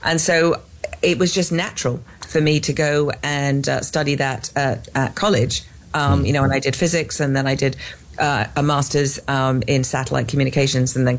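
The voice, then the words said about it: English accent. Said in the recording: “you can tell by my accent, I am not from Texas. I am clearly from England.”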